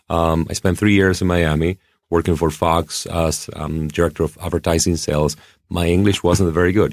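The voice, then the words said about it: Non-native English accent. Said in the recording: “I still have an accent, 20 years after having been in the U.S.”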